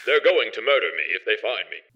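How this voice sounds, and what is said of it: Posh King's English robot voice. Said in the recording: “She makes him speak the king's English.”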